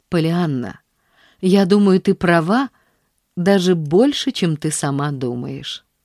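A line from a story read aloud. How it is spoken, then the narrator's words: Affectionate. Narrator (Russian): сказал он ласково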